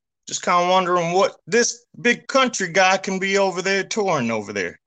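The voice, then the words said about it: Accent not from Chicago. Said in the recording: “I can't quite place your accent. ... It doesn't quite sound like a Chicago accent”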